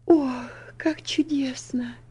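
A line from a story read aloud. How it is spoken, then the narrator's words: Little girl whispering. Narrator (Russian): прошептала маленькая девочка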